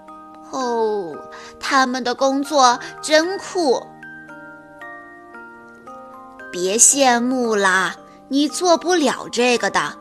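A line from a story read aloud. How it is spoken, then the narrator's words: Heartfelt admiration. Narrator (Chinese): 他发自内心的赞叹道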